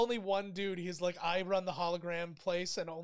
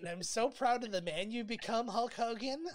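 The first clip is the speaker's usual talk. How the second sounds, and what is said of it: Imitates another person's voice. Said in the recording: “only I can do the voices. Quick, do Andre the Giant. ... Sounds just like him, brother.”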